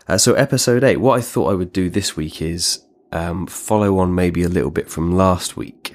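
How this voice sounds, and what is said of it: Hoarse, congested voice with a cold. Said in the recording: “Sorry about my voice this week. I'm a bit coldy, bit kind of, you know, sore throat and all that kind of stuff.”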